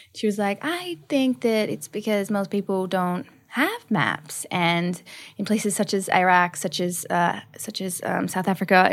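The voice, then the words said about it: Put-on American accent. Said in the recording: “Nice American accent there. Have we been doing training?... I've done a little bit of accent training... that was perfect”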